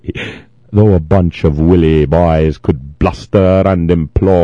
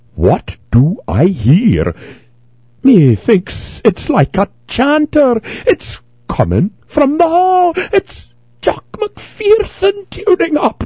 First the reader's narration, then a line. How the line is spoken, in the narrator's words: cried Treasurer McCall